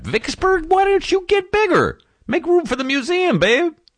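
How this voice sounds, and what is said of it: Excited falsetto voice. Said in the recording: “I'm sorry for going falsetto on you. I just get passionate”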